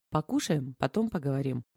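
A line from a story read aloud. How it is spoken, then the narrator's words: Firm, commanding declaration. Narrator (Russian): беспрекословным тоном заявила Зинаида Михайловна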